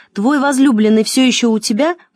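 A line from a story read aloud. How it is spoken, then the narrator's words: Shouted. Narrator (Russian): прокричала она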